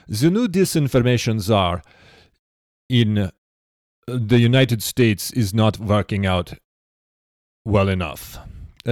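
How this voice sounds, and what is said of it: Attempted German accent, half Russian. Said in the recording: “I don't know if I can get into a German accent. How do you do a German? ... it's close to Russian. ... I'm kind of halfway in between”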